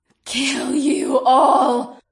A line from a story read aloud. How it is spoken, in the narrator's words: Val hissed